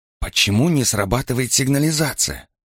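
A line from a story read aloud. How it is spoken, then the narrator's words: Whisper. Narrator (Russian): прошептала Роза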